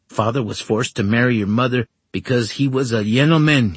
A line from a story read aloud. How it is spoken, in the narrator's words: snapped